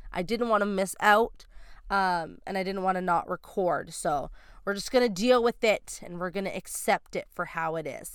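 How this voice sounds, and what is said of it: Stuffy, congested nasal voice. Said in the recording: “I sound very stuffy ... Just the stuffy nose is all I'm left with ... if I sound a little weird”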